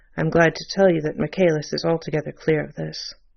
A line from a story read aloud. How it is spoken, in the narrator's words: The assistant commissioner added in a low tone